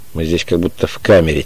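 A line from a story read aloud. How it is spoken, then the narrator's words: Quiet. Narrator (Russian): тихо сказал Эванс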